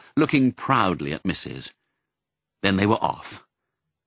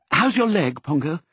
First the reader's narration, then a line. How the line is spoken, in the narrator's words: said anxiously